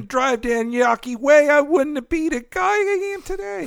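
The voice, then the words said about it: Bad put-on Boston accent. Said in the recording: “That's a terrible accent. ... Boston.”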